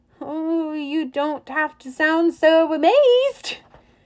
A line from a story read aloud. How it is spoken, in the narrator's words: Nearest moaned